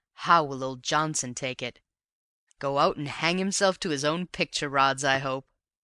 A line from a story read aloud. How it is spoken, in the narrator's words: he chuckled